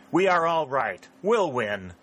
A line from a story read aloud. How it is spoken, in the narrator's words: cried Sheridan